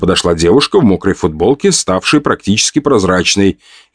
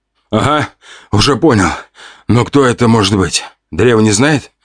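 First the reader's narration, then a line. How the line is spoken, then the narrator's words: Hoarse croak. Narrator (Russian): прохрипел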